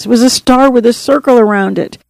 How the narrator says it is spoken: he sobbed, choking out the words

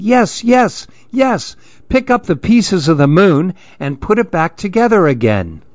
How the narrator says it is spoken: All the other monkeys started yelling

